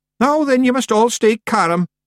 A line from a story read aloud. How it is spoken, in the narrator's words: yelled Rob Anybody